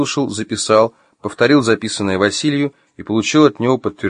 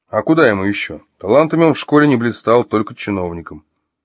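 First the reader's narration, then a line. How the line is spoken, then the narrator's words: Calm speech. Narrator (Russian): спокойно проговорил Василий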